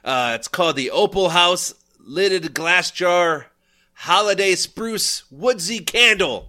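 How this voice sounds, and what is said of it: Put-on unidentified accent. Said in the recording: “I don't know why I'm talking like this ... are you still doing it or are you starting to lose it? I can't tell if you're still doing the accent ... I'm still in it ... I want to sound like this”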